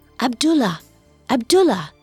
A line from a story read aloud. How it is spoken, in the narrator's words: Morgiana whispered loudly